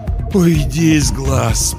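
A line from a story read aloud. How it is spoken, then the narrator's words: Moaned. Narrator (Russian): простонал Маккин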